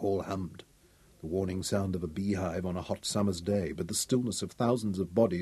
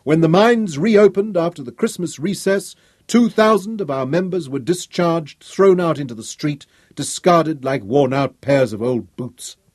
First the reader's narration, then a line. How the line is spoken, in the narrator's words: he raised his voice now